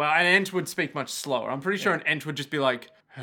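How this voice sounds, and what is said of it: Usual voice. Nothing is said of it.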